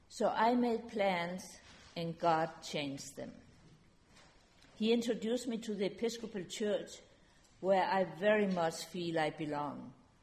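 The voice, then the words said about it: Speaks with a foreign accent. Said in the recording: “I will keep her accent. ... So she will never forget her roots.”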